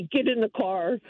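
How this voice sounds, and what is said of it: Grumpy impression of a husband. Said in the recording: “Grumpy ... That's a very solid, good impression of your husband.”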